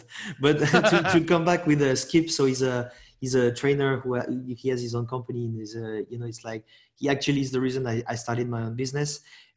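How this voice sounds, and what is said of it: French accent. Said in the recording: “the dude with the French accent”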